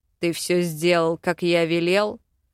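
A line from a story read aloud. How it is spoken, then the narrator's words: Menacing question. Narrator (Russian): грозно спросил Вел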